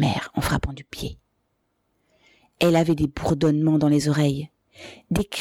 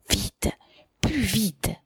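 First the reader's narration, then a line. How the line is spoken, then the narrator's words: Whispering. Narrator (French): chuchota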